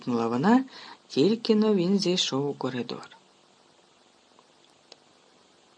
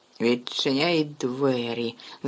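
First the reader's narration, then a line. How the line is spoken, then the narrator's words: Angry hiss. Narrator (Ukrainian): засичала на Гаррі тітка Петунія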